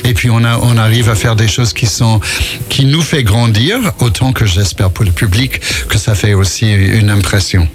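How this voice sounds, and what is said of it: American accent speaking French. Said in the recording (French): “on entend votre accent, parce que vous êtes américain”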